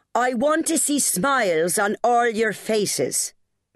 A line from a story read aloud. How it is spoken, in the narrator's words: Miss O'Donnell boomed at them